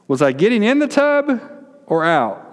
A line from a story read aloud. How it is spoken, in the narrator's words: yelled